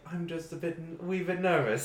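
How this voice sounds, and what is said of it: Put-on British accent. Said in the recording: “I put on a British accent ... I don't know a French accent, but I do know this one”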